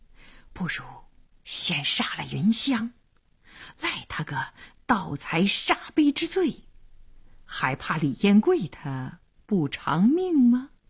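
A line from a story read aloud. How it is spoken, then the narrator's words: Menacing low voice. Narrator (Chinese): 黄良眼里闪着凶光，小声说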